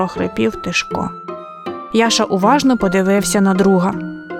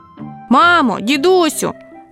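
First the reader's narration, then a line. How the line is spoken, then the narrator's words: Boy shouting. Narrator (Ukrainian): закричав хлопчик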